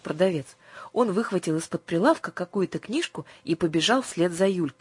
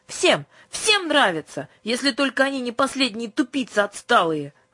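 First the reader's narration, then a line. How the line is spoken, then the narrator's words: Sudden flushed shout. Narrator (Russian): вдруг закричала Юлька, покраснев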